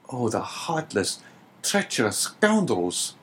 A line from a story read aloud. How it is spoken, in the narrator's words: exclaimed Dante